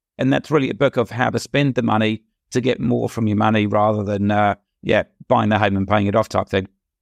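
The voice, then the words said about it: Hoarse, weakened voice. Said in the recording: “sorry, I've lost my voice. I do sound reasonably normal normally.”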